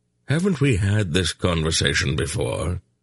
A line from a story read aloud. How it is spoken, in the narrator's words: Belgoroth asked dryly